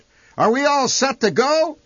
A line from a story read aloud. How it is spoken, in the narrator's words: he shouted